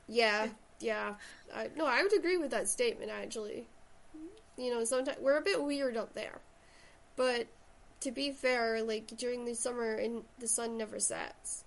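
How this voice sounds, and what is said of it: Shetland Scottish accent. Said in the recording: “everyone thinks I have an American accent ... I originally come from Shetland, so that's where the accent comes from”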